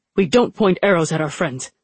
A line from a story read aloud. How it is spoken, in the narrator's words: Alton snapped